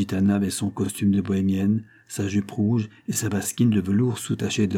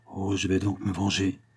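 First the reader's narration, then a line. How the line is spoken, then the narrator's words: Murmured. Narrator (French): murmura-t-elle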